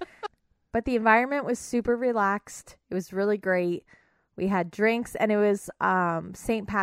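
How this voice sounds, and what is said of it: Usual voice. Nothing is said of it.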